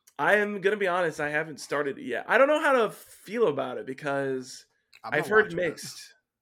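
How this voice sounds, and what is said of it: Slightly congested, nasal voice. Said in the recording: “I sound a little weird ... I've been having some slight congestion the past 2 days”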